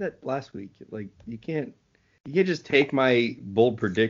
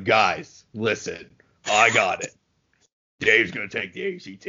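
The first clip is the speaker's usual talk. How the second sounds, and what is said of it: Imitates another person's voice. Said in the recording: “that's a terrible impression”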